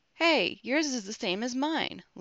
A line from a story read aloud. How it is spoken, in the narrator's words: Logan exclaimed